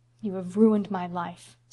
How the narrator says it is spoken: said Roy bitterly

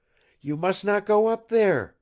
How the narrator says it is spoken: she cried impulsively

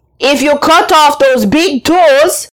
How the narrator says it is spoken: called out

